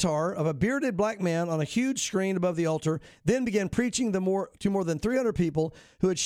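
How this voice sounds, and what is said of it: Usual voice. Nothing is said of it.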